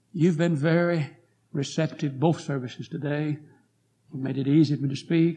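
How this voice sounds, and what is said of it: Hoarse, weak voice. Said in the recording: “I'm very hoarse, as I told you this morning. My voice is weak.”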